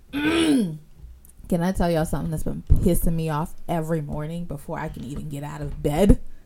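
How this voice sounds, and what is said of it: Hoarse voice cutting in and out. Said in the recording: “my voice is going in and out. I be training every day... clear your throat and talk, please.”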